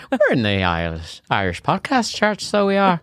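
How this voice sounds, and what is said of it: Put-on Irish accent. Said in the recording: “You couldn't help but do the accent.”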